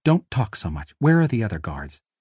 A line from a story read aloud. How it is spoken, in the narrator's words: whispered Artemisia urgently